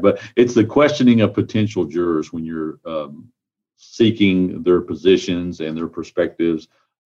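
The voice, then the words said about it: Slightly congested voice. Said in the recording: “I have a little bit of a cold”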